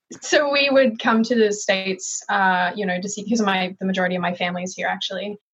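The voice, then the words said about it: Hybrid Australian-American accent. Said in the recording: “I was born and raised in Melbourne, Australia. My mom is American, which is why I have this hybrid jacked accent”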